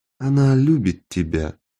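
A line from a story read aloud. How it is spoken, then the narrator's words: Quiet. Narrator (Russian): тихо сказала Кэрол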